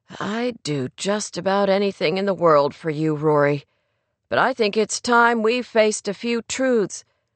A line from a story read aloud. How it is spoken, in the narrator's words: he sighed pensively and said